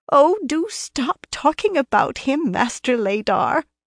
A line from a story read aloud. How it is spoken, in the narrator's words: a woman's voice answered in a quaver that seemed well practiced